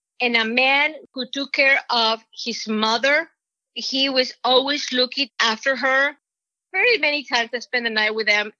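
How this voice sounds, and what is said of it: Mexican accent. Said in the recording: “He always makes fun of my accent. always ask me, what does Mexican mean this?”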